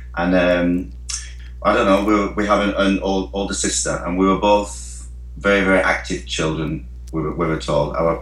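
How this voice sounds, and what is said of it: Northern English accent. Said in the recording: “We're English boys. obviously you can tell with the accents from Northern England”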